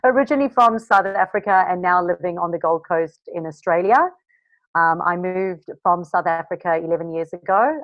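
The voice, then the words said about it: Mixed South African-Australian accent. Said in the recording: “A bit of a mixed accent”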